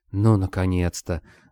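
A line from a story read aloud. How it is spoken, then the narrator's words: Sighing, talking knife. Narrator (Russian): вздохнул нож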